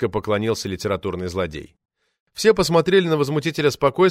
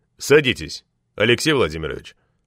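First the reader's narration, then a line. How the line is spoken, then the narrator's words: Stern request. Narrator (Russian): строго попросил Шуваев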